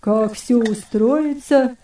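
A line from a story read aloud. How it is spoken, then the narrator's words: Fierce grumble, old man. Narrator (Russian): свирепо проворчал хромой старик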